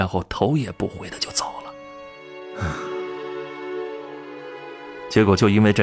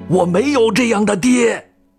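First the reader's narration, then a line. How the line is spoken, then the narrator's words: Shouting. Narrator (Chinese): 李健喊了一句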